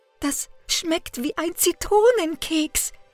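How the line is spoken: Gasping. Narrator (German): japste er

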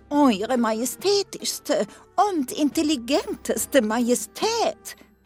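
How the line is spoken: Male call. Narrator (German): rief er

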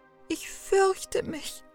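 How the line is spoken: Sobbing. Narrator (German): schluchzte Gretel

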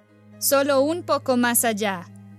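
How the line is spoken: Shouted by stepmother. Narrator (Spanish): gritó la madrastra

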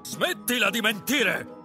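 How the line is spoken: King shouting. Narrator (Italian): gridò il re

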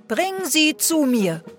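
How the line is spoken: King calling. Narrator (German): rief der König

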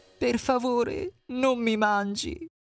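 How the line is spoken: Crying, pleading. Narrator (Italian): Hansel cominciò a piangere e implorava

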